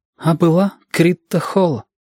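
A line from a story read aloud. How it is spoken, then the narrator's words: Sighing. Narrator (Russian): вздохнул Женька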